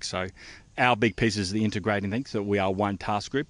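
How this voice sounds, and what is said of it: New Zealand accent. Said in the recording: “I detect a New Zealand accent there”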